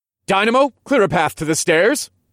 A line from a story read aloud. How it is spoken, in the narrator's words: I shouted